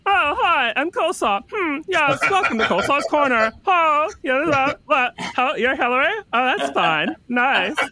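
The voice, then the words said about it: Imitating the character Coleslaw's voice. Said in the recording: “Coleslaw is such a funny character. I mean, I love doing her voice, like that.”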